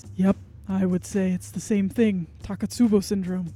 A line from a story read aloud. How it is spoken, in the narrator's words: he nods his head very solemnly, and he says